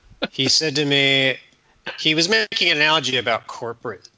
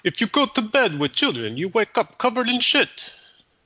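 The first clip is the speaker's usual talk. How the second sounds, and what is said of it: Put-on Italian accent. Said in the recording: “That was your Italian accent”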